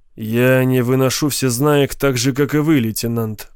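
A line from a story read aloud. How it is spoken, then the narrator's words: Gloomy. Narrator (Russian): мрачно сказал Горбал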